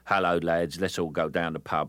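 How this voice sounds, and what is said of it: Cheerful chirpy working-class Cockney accent. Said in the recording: “a working-class Cockney accent, but there is a sort of cheerful, chirpy working-class sort of ... that sort of accent for the chirpy Cockney lad, cheerful little soul”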